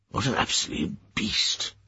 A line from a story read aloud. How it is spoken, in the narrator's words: he murmured